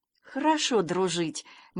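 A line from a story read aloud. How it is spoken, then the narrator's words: Uncertain. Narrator (Russian): неуверенно сказал Санька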